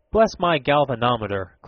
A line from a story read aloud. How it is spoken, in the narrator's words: cried Mr